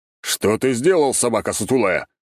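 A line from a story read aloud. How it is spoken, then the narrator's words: Angry growl. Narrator (Russian): рыкнул Август Никифорович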